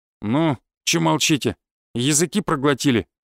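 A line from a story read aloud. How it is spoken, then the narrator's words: Aggressive voice from darkness. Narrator (Russian): снова спросил кто-то из темноты агрессивным тоном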